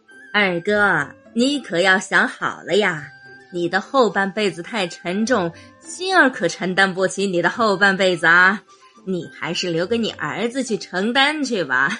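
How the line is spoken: Leisurely, barely suppressed laughter. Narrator (Chinese): 后面忍笑的终于忍不住了，两位嫂嫂…不由悠悠说道

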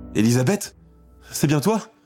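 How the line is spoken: Exclaimed, near fainting. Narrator (French): s'écrie-t-elle

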